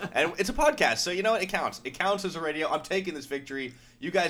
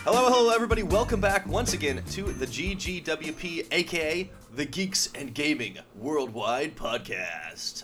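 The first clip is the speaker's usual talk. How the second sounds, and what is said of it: Radio announcer voice. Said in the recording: “I've always wanted to do that voice on the radio”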